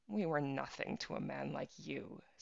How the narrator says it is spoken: said the girl, laughing

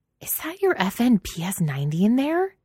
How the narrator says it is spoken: Ashburn hisses

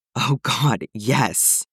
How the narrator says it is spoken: Arching his back, gasps out

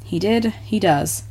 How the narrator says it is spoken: Clark said, smiling gently

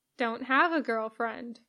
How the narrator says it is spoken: Poe replies, trying his hardest to keep his voice neutral

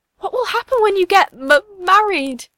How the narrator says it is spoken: She cries

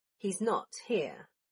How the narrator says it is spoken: Draco said as he tried to keep his voice even and withhold a smirk

